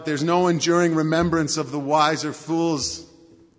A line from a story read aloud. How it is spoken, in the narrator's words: teacher cries out